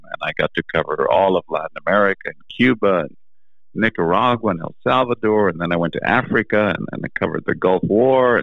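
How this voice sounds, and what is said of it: Charming foreign accent. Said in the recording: “they said you can't do it because your accent... I think your accent's the most charming”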